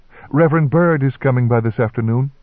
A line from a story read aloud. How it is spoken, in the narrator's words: said in a quavering voice